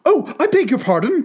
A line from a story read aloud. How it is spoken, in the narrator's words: cried Alice hastily, afraid that she had hurt the poor animal's feelings